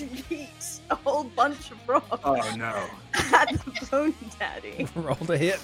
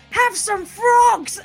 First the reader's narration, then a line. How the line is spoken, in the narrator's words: Bofus is going to yell